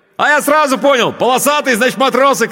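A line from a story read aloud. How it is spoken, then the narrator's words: Shouting over engine noise. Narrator (Russian): крикнул он, стараясь перекрыть шум мотора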